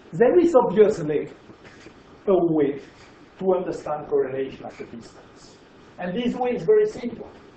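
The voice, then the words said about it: French accent. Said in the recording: “You understand my French accent.”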